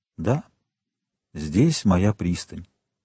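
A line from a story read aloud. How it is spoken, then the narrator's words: Quiet addition. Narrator (Russian): тихо прибавил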